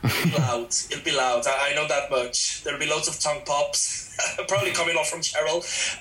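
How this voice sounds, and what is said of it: Mixed blend of two accents. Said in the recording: “it's the accent ... I absolutely love your accent, by the way. It's like two great accents mixed together, making an even better one.”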